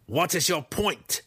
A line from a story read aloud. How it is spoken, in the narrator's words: Breeza asked sharply